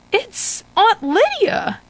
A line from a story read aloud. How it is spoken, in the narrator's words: gasp in surprise